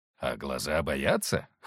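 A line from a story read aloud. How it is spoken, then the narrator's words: Gentleman snorted. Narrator (Russian): хмыкнул господин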